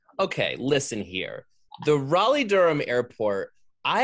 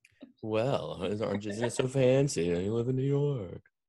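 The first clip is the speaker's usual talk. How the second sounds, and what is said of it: Imitates another person's voice. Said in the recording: “That was my impression of you.”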